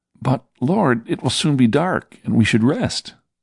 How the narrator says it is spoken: said Judas anxiously

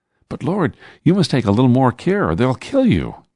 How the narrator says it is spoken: pleaded Philip, thinking I did not understand how grave the situation was

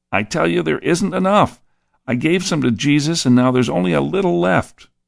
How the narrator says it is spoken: pleaded

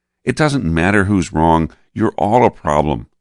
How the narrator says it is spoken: snapped Peter

